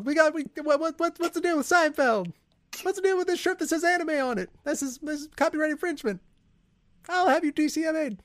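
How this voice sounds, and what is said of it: Jerry Seinfeld impression. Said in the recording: “What's a good impression you can do? ... We got to stay with the Seinfeld. ... Mr. Seinfeld”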